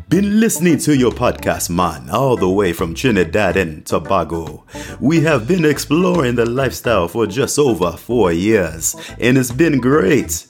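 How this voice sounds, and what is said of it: Attempted Caribbean accent. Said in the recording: “I'm going to try my best Caribbean accent as I read this, okay? So don't hate on me.”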